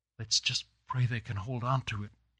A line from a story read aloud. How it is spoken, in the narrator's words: he whispered